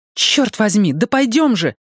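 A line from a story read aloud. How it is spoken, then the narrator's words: Desperate exclamation. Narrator (Russian): воскликнула Мия в отчаянии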